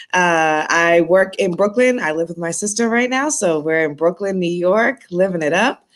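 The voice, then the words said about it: Slight Boston accent. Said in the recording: “I'm born and raised in Boston, Massachusetts. I have a little bit of an accent, so you'll hear that if I say certain words with an R in it.”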